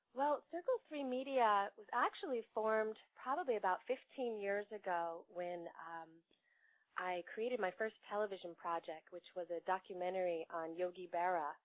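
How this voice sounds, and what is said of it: Voice affected by a cold. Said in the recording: “Excuse my voice. I'm recovering from a little bit of a cold.”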